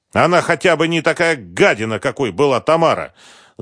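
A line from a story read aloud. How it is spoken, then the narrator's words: Angry shout. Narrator (Russian): зло крикнул Концевич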